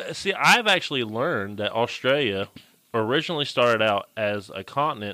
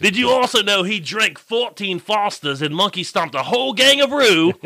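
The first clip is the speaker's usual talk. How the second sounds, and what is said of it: Australian accent drifting into English. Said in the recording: “you just went into a different accent there ... you went from Australian to English”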